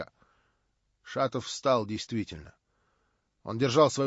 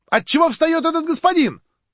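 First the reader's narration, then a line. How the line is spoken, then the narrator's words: Young woman shouting. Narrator (Russian): крикнула студентка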